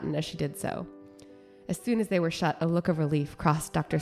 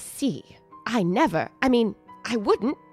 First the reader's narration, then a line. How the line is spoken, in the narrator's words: Hilda sputtered